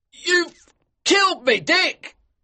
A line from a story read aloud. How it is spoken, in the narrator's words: King cried out to him